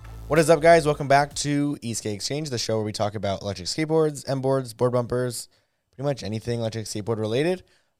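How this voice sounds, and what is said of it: Hoarse voice. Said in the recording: “my voice sounds kind of hoarse... my voice is a little hoarse”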